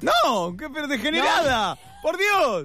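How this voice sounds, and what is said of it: Shouting loudly. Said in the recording (Spanish): “No grites”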